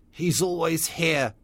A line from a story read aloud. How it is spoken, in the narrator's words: he said